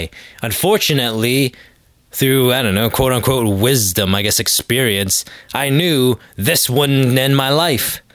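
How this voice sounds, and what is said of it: Sick-sounding voice. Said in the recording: “I think you can hear it in my voice. I'm not 100%. I've been sick”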